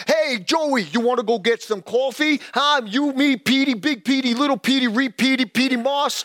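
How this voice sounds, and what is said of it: Put-on New York accent. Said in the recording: “talk like a New Yorker”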